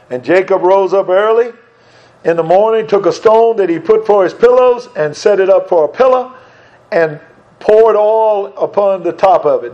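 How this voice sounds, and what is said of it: Regional accent, pillow and pillar merged. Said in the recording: “in my accent, pillow and pillar sounds exactly the same”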